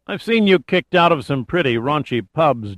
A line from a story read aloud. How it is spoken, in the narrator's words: Giordino said in a dour voice